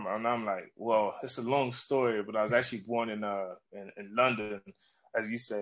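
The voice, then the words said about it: Strong American accent. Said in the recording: “you've got a very strong American accent”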